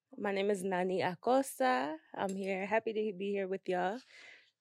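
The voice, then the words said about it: Speaks with an accent. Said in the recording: “I love your accent”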